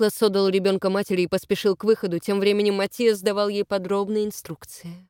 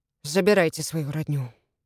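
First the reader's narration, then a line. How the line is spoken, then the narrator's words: Mumble. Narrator (Russian): пробормотал он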